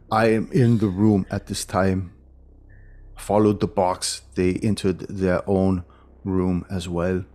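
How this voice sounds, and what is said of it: Speaks with a put-on accent. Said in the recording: “the text has an accent.”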